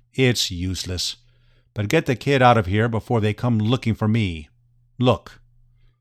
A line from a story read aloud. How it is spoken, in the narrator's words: Raynor I said in his deadpan voice